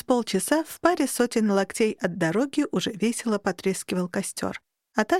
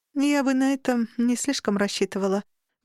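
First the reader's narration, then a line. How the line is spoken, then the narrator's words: Wry, heavy sigh. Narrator (Russian): поморщилась Алька, тяжело вздохнула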